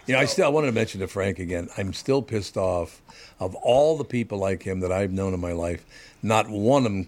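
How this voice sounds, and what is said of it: Low, gravelly voice. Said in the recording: “your voice is too gravelly or too ... low and gravelly.”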